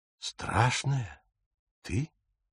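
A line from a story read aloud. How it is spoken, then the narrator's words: Whisper. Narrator (Russian): прошептал Отто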